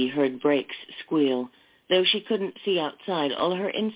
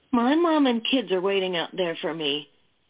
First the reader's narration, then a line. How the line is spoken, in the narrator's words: the blonde cried